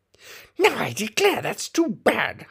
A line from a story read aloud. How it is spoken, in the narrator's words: Humpty Dumpty cried, breaking into a sudden passion